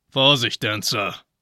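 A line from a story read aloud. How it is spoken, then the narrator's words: Growled. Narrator (German): knurrte Blitzen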